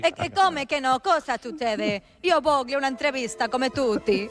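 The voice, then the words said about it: Put-on Neapolitan Italian accent. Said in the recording (Spanish): “italiana. ... Es una italiana. ... La napolitana. ... El acento, per favore.”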